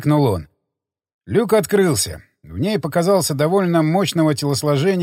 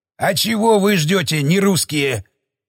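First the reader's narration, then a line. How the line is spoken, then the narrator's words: Growl. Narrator (Russian): прорычал он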